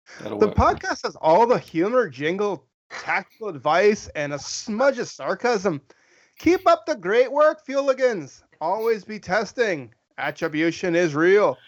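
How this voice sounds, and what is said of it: Put-on female Irish accent. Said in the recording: “read this in an Irish accent ... you're going to do a female Irish voice ... It might have been spit Scottish”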